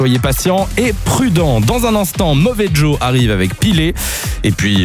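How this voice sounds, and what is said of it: Usual voice. Nothing is said of it.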